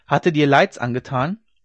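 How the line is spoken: Called out. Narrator (German): rief dieser

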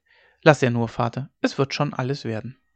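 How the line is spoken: Calm reply. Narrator (German): Hauke erwiderte ruhig

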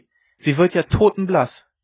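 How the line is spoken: Called out. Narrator (German): rief sie

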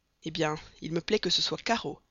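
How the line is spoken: Irritated reply. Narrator (French): répliqua le colonel Proctor d'une voix irritée

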